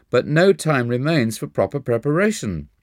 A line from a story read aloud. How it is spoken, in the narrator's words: said with a sob